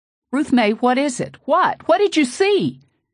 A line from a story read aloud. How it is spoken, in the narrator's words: In my panic, I shook her hard, screamed